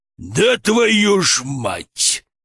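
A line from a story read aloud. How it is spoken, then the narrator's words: Bear's growl. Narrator (Russian): прорычал медведь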